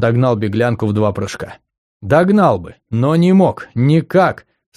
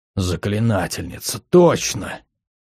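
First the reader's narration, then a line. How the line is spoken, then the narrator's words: Breathless exclamation. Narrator (Russian): Выдохнул Дайсон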